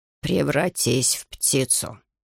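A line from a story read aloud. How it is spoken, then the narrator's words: Grumbled. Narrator (Russian): буркнул он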